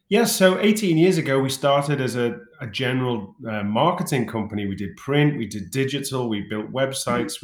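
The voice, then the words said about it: British accent. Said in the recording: “You started in the UK, I gather that from the accent”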